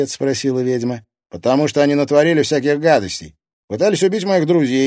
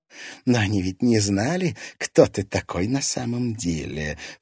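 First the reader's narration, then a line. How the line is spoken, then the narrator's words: Ingratiating, insinuating voice. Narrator (Russian): вкрадчиво произнесла Саяна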